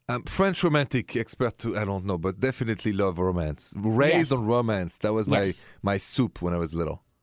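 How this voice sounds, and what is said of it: French accent. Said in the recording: “you're French, and you automatically get romance points just on that accent alone”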